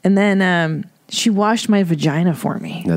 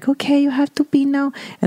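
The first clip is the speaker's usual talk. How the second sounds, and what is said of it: Filipino accent. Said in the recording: “An interesting accent. ... She's Filipino.”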